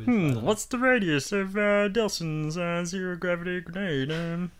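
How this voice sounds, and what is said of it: Bad nerdy voice impression. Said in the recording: “The worst nerd impression I've heard in my life.”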